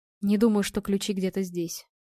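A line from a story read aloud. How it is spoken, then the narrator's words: Tired. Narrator (Russian): устало произнес Женя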